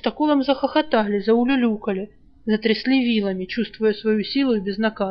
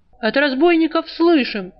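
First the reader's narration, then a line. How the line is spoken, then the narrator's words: Indignant yell. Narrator (Russian): возмущенно заорал Жар в ответ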